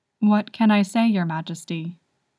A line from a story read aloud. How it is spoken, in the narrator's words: she said